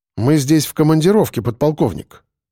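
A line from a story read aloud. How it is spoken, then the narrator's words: Calm. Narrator (Russian): сказал я спокойно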